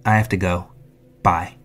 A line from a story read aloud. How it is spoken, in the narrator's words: curtly said